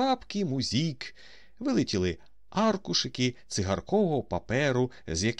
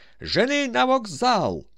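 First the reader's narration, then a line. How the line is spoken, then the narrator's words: Full-strength shout. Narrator (Ukrainian): що було сили, закричав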